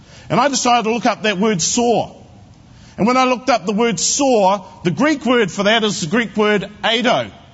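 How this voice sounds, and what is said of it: New Zealand accent. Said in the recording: “with a New Zealand accent”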